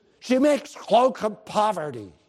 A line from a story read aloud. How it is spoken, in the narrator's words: he said with a sneer